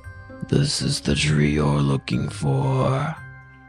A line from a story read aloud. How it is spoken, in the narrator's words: the woodsman said quietly